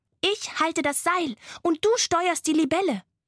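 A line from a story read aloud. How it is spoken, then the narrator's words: Called out. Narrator (German): rief Laila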